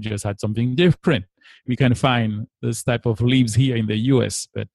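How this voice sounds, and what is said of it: Martinique accent. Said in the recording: “hails from the beautiful, beautiful island of Martinique. And it comes with his beautiful accent, despite living for several years in Los Angeles.”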